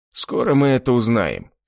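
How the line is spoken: Snorted. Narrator (Russian): хмыкнул Кастет

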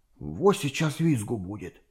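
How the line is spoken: Whispered. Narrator (Russian): шепнул Рыжий Тузику

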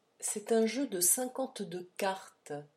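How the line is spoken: Said quietly. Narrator (French): dit tout bas Malthus

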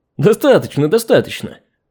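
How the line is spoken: Chuckling. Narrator (Russian): В своей манере хохотнул бессмертный

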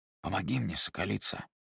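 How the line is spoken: Whispered. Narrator (Russian): шепнул Айлан

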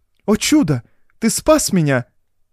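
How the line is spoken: Exclaimed. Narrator (Russian): воскликнула Доротея

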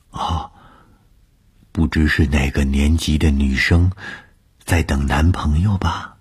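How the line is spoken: Whisper. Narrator (Chinese): 凑在我的耳边低声地说

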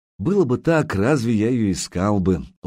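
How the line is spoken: Tender, gentle. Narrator (Russian): ласково проговорил Илья

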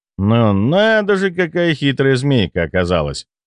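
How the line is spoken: Snorting. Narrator (Russian): хмыкнул я

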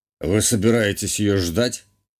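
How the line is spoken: Amused snort, duke. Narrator (Russian): хмыкнул герцог

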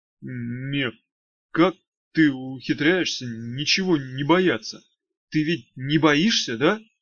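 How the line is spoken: Timid question. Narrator (Russian): робко спросил Мошкин

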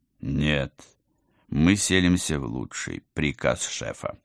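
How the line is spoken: Solemn correction. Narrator (Russian): торжественно поправил командор

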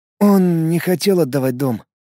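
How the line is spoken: Soft statement. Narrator (Russian): тихо сказал парень

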